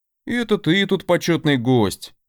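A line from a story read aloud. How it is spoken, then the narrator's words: Mock-offended sniff. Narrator (Russian): Явно играя, он обиженно шмыгнул носом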